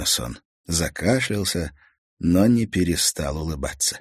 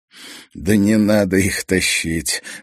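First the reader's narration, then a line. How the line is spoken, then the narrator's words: Laughing. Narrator (Russian): засмеялся Томас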